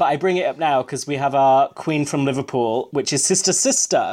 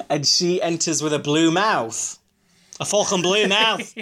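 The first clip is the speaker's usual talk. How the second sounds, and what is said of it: Poor put-on Scouse accent. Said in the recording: “that was a terrible Scouse accent”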